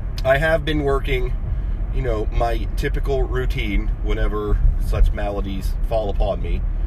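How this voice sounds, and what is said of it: Rough, congested voice. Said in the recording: “if my voice sounds a little rough, it's because it is a little rough ... due to aforementioned, you know, sneezing and snuffling and coughing”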